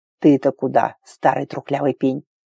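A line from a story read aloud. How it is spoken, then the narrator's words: Hissed. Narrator (Russian): зашипел он на отца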